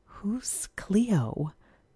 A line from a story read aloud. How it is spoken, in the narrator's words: Sarah whispered